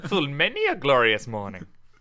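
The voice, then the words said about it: Bad Yoda-style character voice. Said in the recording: “worst Yoda impression in the world, that was, wasn't it? That's atrocious.”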